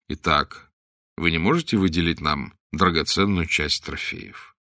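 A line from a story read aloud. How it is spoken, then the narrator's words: Calm. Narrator (Russian): заключил Блад спокойно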